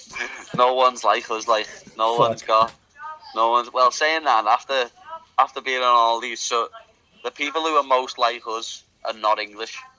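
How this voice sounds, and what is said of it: Strong regional British dialect. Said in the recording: “The way Skelzers speak ... your dialect, I grasp some of the words, but some other words”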